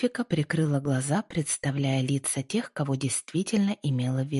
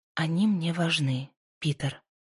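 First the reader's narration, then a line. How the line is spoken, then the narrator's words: Soft but confident. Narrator (Russian): мягко, но уверенно ответила Пасифика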